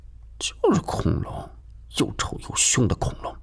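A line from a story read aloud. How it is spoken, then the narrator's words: Mumbling. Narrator (Chinese): 金锁还嘟囔地说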